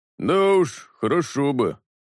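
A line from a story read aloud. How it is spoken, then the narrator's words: Grumbling. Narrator (Russian): проворчал Кровь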